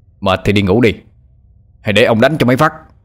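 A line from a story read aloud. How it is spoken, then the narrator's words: Loud shout. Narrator (Vietnamese): Tư Trạ quát lớn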